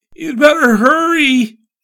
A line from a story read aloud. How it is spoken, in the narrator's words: gasped